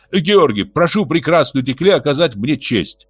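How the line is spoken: Cheerful, overly impatient voice. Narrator (Russian): Веселым, может быть, слишком нетерпеливым голосом он сказал

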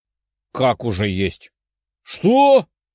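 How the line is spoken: Loud exclamation. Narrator (Russian): во все горло воскликнул парень

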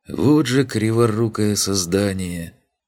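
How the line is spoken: Affectionate grumble. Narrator (Russian): ласково пробурчал

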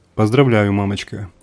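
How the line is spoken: Calm. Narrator (Russian): спокойно произнес врач

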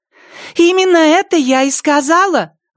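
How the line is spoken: Enthusiastic exclamation. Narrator (Russian): воодушевленно воскликнула Хезер

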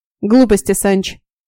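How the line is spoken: Sharp, flustered interruption. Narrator (Russian): Резко оборвал привратника Морган, и на его щеках запылал румянец

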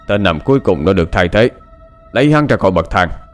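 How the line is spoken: Roaring. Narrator (Vietnamese): Nó gầm lên

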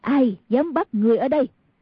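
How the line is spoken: Angry woman. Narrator (Vietnamese): Người đàn bà kia tức giận nói

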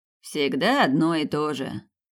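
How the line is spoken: Grumbling. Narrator (Russian): пробурчал один из стрелков

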